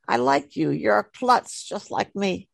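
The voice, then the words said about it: New York accent. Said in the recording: “in a New York accent.”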